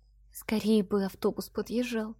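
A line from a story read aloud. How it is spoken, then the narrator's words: Barely audible grumbling. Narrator (Russian): бухтела чуть слышно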